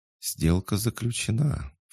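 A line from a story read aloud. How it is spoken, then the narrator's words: Insinuating whisper. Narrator (Russian): вкрадчиво прошептала смерть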